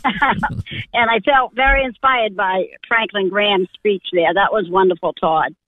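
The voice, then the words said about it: Maine accent. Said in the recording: “my language up here in Maine, my accent”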